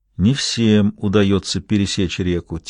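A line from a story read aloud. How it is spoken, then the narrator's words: Quiet. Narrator (Russian): тихо сказал Гамаш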